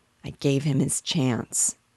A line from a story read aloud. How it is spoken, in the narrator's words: he murmured out of the depths of a great sadness